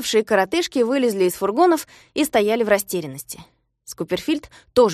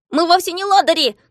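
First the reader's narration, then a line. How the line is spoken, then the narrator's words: Distant shouting behind fence. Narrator (Russian): кричали из-за ограды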